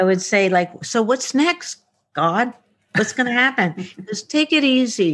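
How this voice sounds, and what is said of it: Usual voice. Nothing is said of it.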